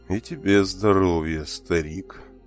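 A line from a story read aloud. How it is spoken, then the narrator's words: Muffled, hollow voice. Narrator (Russian): Глухим голосом ответил Оорх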